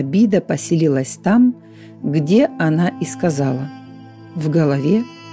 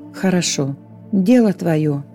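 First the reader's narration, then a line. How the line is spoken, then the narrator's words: Sighing, angel. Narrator (Russian): вздохнул ангел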